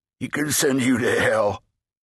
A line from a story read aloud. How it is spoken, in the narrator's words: snarled